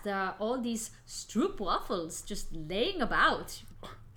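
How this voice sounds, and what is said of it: Put-on foreign accent. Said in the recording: “that's a very lovely accent”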